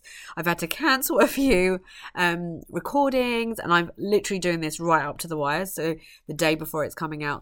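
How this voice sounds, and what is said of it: Losing voice, coughy and spluttery. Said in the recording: “struggling a little bit with losing my voice... I am a little bit coughy and a bit spluttery, and my voice does go”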